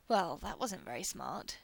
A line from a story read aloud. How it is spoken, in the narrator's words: Shepherd drawls